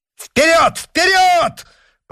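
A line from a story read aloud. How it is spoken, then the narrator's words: Shrill shout. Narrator (Russian): пронзительно крикнул Д'Артаньян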